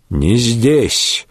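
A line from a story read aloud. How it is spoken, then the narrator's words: Gruff mutter. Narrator (Russian): буркнул на брата Вольфгер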